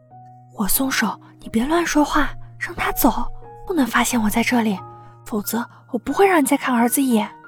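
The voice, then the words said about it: Quiet, whispered threatening tone. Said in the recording (Chinese): “小声威胁”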